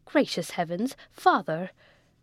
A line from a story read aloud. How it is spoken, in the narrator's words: cried Joseph